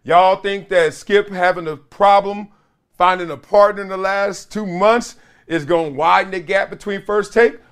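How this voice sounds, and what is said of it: Strained voice, losing his voice. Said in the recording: “The way I'm sounding is like Tony Montana over here. Because my voice, I'm losing my voice”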